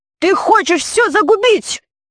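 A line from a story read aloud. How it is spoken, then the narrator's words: Shouting. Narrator (Russian): закричал он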